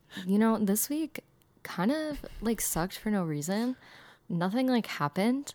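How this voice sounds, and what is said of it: Hoarse voice with vocal fry. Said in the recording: “I also lost my voice last night... My vocal fry is really going to be coming out this episode.”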